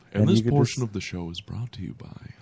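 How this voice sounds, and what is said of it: Quiet NPR voice, weak Garrison Keillor. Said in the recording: “I don't have a very good Garrison Keillor... It's not a good Garrison Keillor, no. But it's a good NPR voice... The goal is to just try to talk as quietly as you can.”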